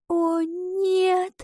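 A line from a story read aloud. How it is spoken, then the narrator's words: Whisper. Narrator (Russian): прошептала она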